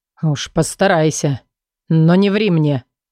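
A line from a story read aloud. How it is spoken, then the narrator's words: Menacing growl. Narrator (Russian): Угрожающе прорычал он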